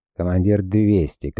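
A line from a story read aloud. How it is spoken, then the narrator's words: Shout. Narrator (Russian): крикнул сундук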